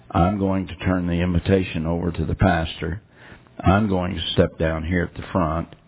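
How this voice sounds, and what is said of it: Hoarse, nearly lost voice. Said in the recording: “My voice is about gone.”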